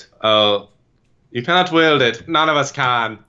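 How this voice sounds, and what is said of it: Imitates Aragorn's voice. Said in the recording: “In his Aragorn voice.”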